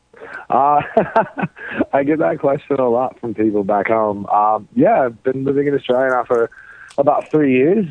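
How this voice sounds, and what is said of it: American accent with slight Australian tinge. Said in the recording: “I've just kind of taken on a bit of the accent. To an Australian, I still sound exceptionally American, but to an American, there's a bit of an accent going on.”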